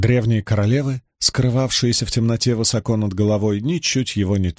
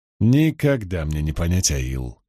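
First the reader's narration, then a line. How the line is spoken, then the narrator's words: Muttered. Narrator (Russian): пробормотал Ранд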